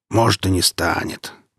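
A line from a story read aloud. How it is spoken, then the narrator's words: Grumbling mutter. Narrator (Russian): буркнул посол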